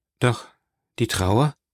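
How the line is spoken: Hesitant. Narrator (German): sagte Franz zögernd

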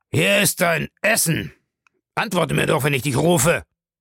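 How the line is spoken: Bellowing. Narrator (German): brüllte er

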